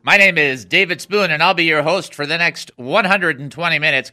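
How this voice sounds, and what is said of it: Radio announcer voice. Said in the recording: “I'm using my radio voice now.”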